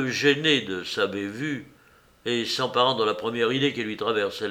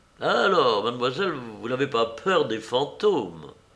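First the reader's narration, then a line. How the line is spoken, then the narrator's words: Cheerful reply. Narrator (French): Gaiement, Colette répliquait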